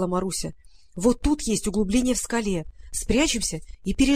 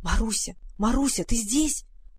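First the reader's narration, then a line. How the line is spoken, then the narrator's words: Whisper. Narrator (Russian): прошептала Варя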